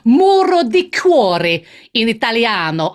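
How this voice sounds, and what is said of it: Put-on Italian accent. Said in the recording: “It sounds better in Italian accent.”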